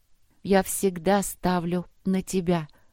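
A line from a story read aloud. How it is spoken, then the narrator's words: Solemn assurance. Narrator (Russian): торжественно заверила его Поля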